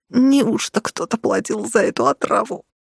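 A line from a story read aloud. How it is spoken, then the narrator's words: Wheezing, breathless. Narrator (Russian): просипела я, глотнув воздуха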